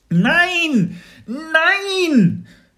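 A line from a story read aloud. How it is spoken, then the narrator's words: Desperate scream. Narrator (German): Mats schrie sich fast die Seele aus dem Leib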